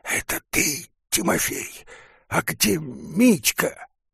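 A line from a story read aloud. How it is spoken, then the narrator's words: Hissing voice. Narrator (Russian): кто-то спрашивает его шипящим голосом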